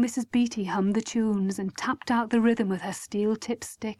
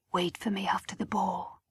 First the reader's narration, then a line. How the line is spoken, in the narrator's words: he whispered